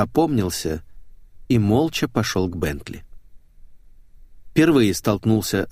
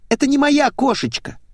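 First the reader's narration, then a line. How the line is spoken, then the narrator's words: Shrill squeal. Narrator (Russian): взвизгнула девица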